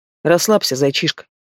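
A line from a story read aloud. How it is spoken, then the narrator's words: Commanding, same tone. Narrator (Russian): Все тем же тоном приказал он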